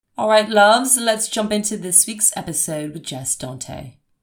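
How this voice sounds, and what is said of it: Put-on English accent. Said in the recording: “How is that English accent? It's so embarrassing.”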